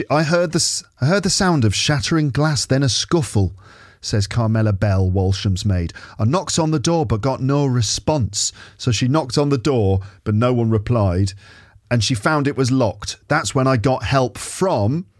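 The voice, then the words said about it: Questionable northern English accent. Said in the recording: “I suppose she should sound like Mrs. Patmore or something ... I don't know about this accent. Very questionable. Is this Manchester or Lancashire or Yorkshire?”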